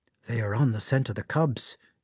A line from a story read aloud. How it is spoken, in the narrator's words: he whispered